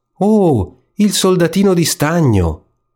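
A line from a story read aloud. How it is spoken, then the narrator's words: Loud shout. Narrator (Italian): qualcuno gridò forte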